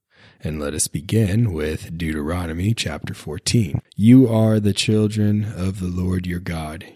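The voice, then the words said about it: Raspy, sick-sounding voice. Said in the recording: “I'm still under the weather, my voice is raspy, ... my ridiculous voice”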